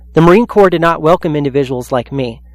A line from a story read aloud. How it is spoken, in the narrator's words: Capers said